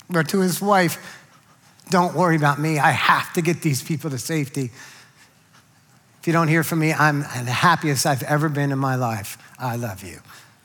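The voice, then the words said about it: Emotional, choked-up voice. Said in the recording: “I get emotional”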